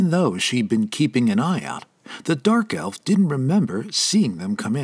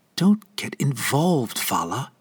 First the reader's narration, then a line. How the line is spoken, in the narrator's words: whispered to herself